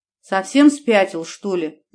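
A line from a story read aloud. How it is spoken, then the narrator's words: Angry yell. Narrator (Russian): заорала я на него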